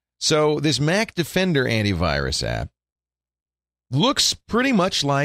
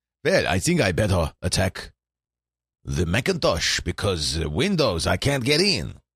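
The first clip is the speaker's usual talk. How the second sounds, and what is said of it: Put-on vague European accent. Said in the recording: “That's an unidentified Eurotrash accent. I'm not ascribing it to any particular country.”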